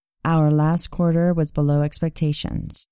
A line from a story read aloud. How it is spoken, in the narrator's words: she said